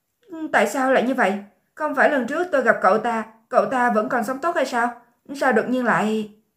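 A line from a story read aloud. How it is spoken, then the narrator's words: Frightened, trembling. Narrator (Vietnamese): Thân thể Miêu Tiểu Thiện khẽ run lên, sợ hãi nói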